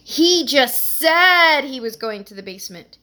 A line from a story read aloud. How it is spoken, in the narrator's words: she exclaimed dramatically